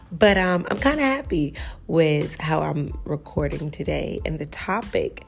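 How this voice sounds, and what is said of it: Slightly raspy voice. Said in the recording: “my voice is still a little raspy, just a little raspy.”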